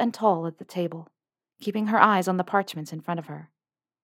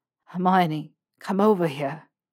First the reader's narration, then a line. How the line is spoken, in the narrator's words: he panted